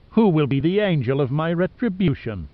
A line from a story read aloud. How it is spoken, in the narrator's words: Dorset sneered